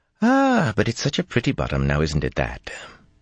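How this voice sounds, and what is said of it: Lilting accented female character voice. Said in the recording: “in a lilting Mirandian accent”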